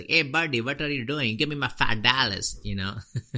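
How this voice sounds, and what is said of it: Mock New York mobster-style uncle accent. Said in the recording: “half uncle, half like, you know, New York mobster ... this like weird NRI uncle accent”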